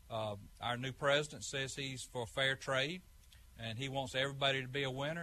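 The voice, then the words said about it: Southern Georgia brogue. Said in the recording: “farmer from Georgia. Maybe you could tell by the brogue there.”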